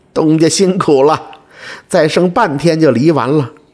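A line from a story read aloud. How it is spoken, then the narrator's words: Cheerful laughing. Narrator (Chinese): 二蛋笑哈哈地说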